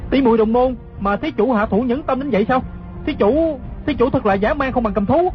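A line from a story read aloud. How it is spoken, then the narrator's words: Shocked, angry shouted question. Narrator (Vietnamese): Hư Trúc kinh hãi không sao nói hết, giận dữ quát hỏi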